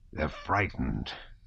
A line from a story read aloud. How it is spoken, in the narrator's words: said confidentially in a hoarse voice